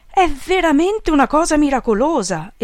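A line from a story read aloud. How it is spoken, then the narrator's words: Exclamation. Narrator (Italian): esclamò Peppone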